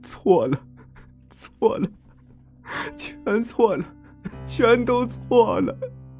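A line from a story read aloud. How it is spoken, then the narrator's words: Anguished sobbing. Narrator (Chinese): 忽然痛苦的抱着头哭出声来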